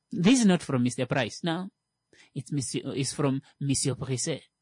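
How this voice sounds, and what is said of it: Put-on French accent. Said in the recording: “Say it with a French accent.”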